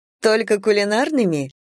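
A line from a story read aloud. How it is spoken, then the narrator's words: Laughing. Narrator (Russian): рассмеялась Лена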